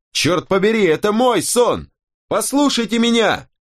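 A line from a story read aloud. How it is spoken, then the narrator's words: Shouting. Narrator (Russian): Я закричал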